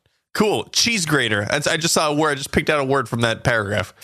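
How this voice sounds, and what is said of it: Usual voice. Nothing is said of it.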